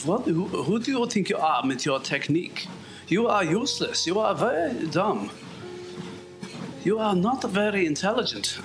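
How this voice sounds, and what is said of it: Put-on German accent. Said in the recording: “At least a German would say it to my face ... my accent needs improvement”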